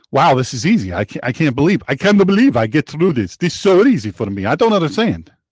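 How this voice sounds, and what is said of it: Over-the-top Russian accent. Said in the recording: “like Count Dracula? ... A little over the top with that. I'm normally better on my Russian accents.”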